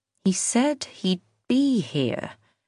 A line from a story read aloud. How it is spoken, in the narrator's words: she said slowly